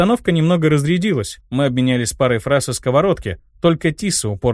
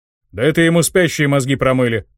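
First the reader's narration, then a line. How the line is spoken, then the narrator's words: Short laugh. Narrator (Russian): хохотнул Ханг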